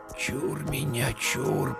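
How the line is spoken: Whispered. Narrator (Russian): прошептал Игнат

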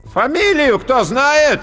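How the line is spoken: Loud commanding call. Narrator (Russian): громко и властно выкликал толстяк

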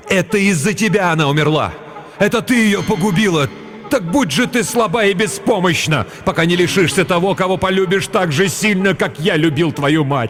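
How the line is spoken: Loud grief-stricken shout. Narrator (Russian): Отец Кирен так сильно любил свою жену, что когда ему сообщили печальную весть и показали дочку, он громко закричал

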